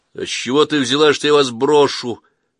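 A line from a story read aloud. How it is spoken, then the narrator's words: Jealous, indignant shout. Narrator (Russian): крикнул, испытывая удушливый приступ ревности, смешанный с негодованием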